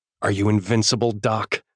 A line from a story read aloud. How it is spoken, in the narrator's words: I snarl